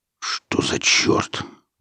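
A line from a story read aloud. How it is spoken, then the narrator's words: Muttering. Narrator (Russian): пробормотал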